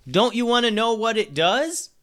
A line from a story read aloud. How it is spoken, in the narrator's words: He hollered